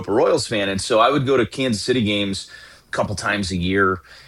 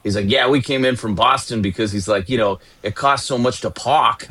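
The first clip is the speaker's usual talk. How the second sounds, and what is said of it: Imitated Boston accent. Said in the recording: “I hadn't really experienced the Boston accent ... I just hadn't been exposed to like a Boston accent before.”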